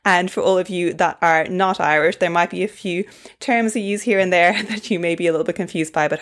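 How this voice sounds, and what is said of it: Mild, toned-down Irish accent. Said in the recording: “I'm originally Irish, but I've lived in Australia for 8 years now, so I have a bit of a toned down Irish accent”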